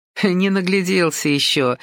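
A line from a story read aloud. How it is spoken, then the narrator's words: Laughing. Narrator (Russian): рассмеялась Ася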